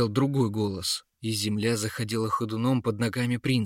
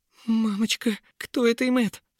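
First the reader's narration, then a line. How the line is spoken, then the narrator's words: Trembling voice. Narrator (Russian): проговорил дрогнувшим голосом принц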